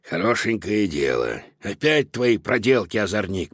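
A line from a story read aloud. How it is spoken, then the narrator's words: Grumbling. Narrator (Russian): проворчал Додо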